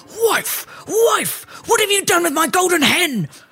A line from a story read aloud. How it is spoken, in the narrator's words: the ogre yelling